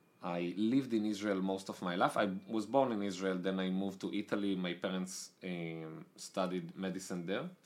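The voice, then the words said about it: Strong Israeli accent. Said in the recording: “as you can hear from my aggressive accent, I'm Israeli”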